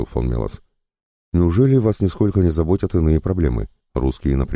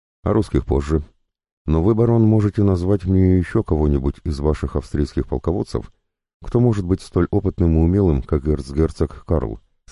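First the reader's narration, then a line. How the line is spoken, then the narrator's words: Plain. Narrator (Russian): спросил Массена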